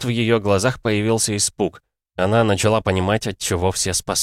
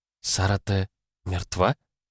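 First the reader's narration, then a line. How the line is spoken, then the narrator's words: Whispering. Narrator (Russian): прошептала Кицуне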